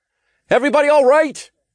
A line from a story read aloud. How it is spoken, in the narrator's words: I called out